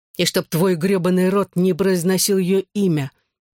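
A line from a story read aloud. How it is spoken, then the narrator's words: Breathless growl. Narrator (Russian): тяжело дыша прорычал Джонни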